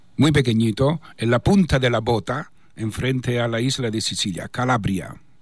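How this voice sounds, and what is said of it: Spanish with a strong Italian accent. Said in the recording (Spanish): “tenéis un italiano muy profundo ... este acento mío no lo pierdo por naturaleza”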